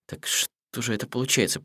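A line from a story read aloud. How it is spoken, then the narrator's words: Mutter. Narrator (Russian): пробормотал Хидеюки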